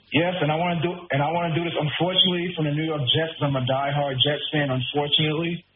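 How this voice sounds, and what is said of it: New York accent. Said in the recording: “the way you said "unfortunately" means you're from my neck of the woods. Where are you? Are you a Queens guy? ... I can hear it from your accent.”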